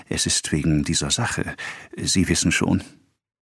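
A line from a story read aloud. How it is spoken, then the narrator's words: Added in a whisper. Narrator (German): flüsternd fügte er hinzu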